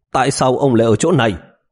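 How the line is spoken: Displeased sharp demand. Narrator (Vietnamese): không có thái độ vui vẻ gì, quát hỏi

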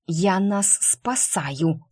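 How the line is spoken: Hissing like a cat. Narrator (Russian): прошипела я кошкой

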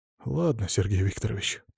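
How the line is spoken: Muttering. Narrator (Russian): пробормотал он

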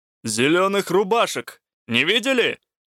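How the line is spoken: Shout. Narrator (Russian): крикнул

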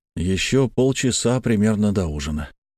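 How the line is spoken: Tired. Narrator (Russian): устало сказал я

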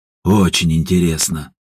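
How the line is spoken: Snort. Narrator (Russian): хмыкнул Степан

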